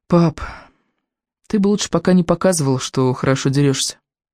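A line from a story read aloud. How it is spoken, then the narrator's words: Sad advice. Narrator (Russian): грустно посоветовал Икинг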